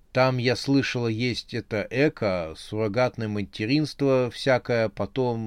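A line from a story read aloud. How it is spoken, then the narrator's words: Timid. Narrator (Russian): Юля робко сказала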